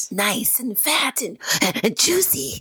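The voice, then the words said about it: Crazed character voice. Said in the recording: “do your Renfield voice? ... Oh, that was good.”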